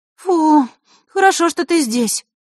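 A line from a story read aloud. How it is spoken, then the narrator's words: Relieved exhale. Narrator (Russian): облегченно выдохнула Захарра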